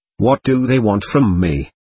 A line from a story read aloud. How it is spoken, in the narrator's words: asked anxiously